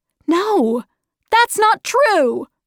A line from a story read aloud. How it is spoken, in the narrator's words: shouted Meg